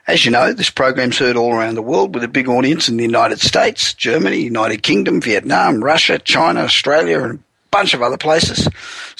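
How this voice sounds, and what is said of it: Croaky, hoarse voice. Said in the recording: “Please excuse my voice, it's got a bit croaky.”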